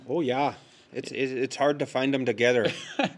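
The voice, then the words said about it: Comic character accent. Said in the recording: “Wow, I love your accent.”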